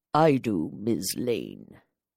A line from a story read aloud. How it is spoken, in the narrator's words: Baron said grimly